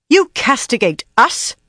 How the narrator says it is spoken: she snapped in tones as frosty as her eyes were hot

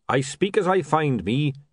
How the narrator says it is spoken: he said

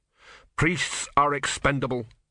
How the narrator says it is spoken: said Simony

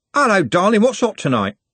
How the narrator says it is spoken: Trev said, cheerfully

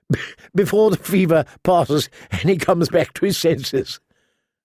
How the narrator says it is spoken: suggested Harbin, chuckling

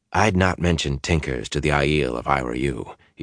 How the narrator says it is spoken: said in a low voice

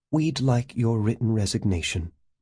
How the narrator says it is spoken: In a tight, controlled voice, she said

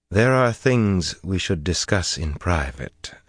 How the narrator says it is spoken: Elana said calmly

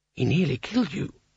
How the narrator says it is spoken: he hissed

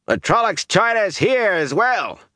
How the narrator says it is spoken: Harry Coplin shouted

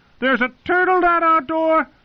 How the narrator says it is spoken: Pip shouted

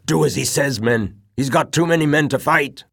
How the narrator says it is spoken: the veteran corporal shouted out

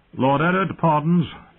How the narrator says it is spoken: Desmond called out

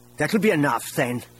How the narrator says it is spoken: Isolde said angrily

